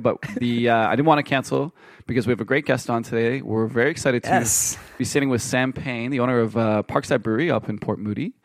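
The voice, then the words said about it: Sick, rough-sounding voice. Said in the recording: “You sound sick, bro... I'm a little bit rugged today... I'm feeling a little bit fluish”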